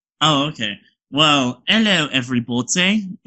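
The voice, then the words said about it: Put-on British accent. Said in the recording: “It's a very authentic British accent that I learned from one of my friends.”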